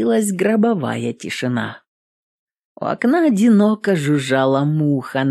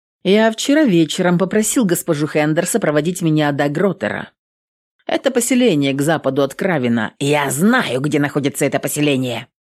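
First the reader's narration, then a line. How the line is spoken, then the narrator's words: Barking, interrupting. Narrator (Russian): рявкнул комиссар, перебивая служителя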